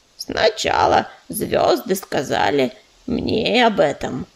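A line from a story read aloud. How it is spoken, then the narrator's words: Low droning, female badger. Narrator (Russian): прогудела барсучиха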